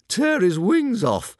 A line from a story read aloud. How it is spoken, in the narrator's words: howled Fireworm